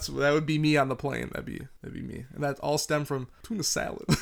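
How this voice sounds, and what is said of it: Usual voice. Nothing is said of it.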